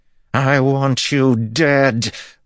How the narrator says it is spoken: the woman screamed

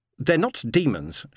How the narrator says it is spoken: said sharply

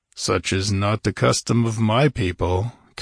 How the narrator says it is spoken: Conan growled

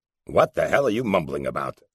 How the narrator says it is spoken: Morrison grunted

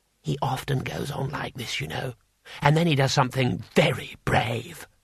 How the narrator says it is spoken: Twoflower whispered

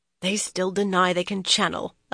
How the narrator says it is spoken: Elise muttered

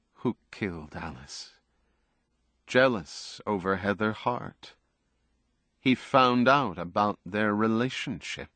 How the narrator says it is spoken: Buckman said quietly, as if to himself

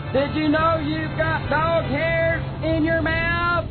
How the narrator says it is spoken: His screeching was so loud

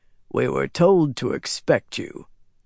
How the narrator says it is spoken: the guard told Fael in a deep voice

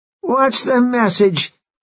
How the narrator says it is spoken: the second guy gasped

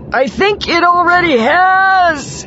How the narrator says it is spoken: he shouted

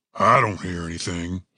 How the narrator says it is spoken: grumbled

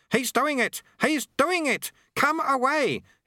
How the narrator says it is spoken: he shouted

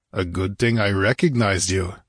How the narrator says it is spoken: grunted the barbarian

